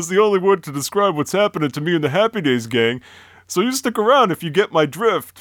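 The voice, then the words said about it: Impression sounding like early John Travolta. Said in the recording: “It's a pretty good impression. Not of the character, I gotta say. It sounded like his dad or something like that. Or, you know, John Travolta. Early stages John Travolta.”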